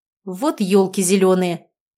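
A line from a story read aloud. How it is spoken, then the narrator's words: Exasperated exclamation. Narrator (Russian): в сердцах воскликнул Никита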